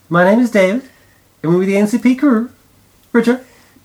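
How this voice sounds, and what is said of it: Put-on cartoon character voice. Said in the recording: “What was with that accent? ... You really should have gone more for Big Gay Al ... If you could do the show in that voice for the whole show.”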